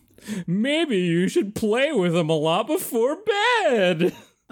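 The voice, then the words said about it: Silly funny voice. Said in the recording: “That was a good funny voice.”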